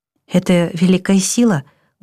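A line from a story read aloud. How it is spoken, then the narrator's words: Timid male voice. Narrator (Russian): говорит он робко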